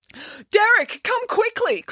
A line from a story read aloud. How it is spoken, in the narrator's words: cried Nanny Piggins